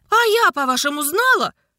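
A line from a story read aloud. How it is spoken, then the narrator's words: Nearly shouting. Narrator (Russian): почти крикнула она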